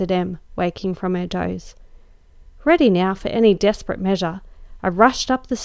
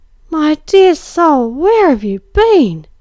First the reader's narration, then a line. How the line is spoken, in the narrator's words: she cried